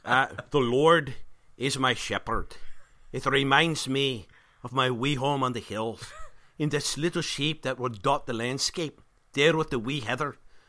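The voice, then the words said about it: Put-on Scottish accent. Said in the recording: “Scottish accent”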